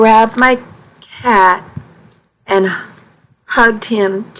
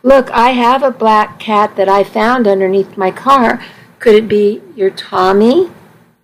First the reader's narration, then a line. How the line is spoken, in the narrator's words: the man said in a kind voice